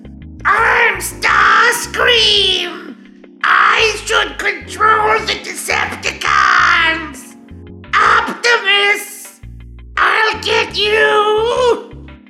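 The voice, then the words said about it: Loud Starscream impression. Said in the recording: “do my Starscream impression ... it's real loud”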